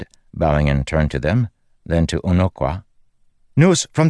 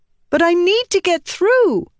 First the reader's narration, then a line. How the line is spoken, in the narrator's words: Shallan cried up to them